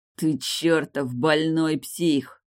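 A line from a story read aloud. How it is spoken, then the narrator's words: Through gritted teeth. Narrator (Russian): сквозь зубы процедил король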